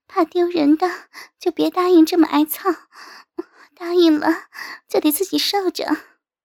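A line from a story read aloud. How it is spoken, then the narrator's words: Coy panting. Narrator (Chinese): 我娇喘着答道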